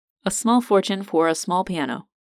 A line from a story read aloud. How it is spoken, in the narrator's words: Seb chuckled